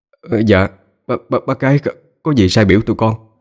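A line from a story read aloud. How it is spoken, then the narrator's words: Stammering. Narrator (Vietnamese): Anh Tám lắp bắp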